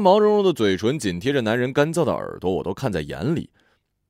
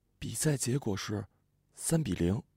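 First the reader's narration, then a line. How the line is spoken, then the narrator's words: Sudden whisper. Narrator (Chinese): 我的朋友突然在他耳边轻声说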